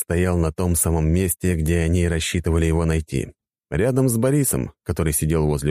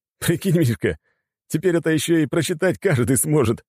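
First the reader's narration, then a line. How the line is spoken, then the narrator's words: Laughing. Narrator (Russian): смеялся Осип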